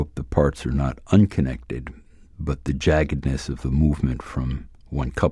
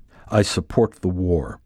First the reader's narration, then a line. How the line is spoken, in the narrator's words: says the comic